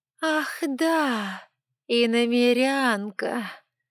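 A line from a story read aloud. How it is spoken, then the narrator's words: Contemptuous drawl. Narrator (Russian): почти презрительно протянула она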